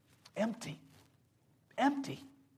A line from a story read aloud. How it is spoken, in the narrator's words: she at last choked out through tears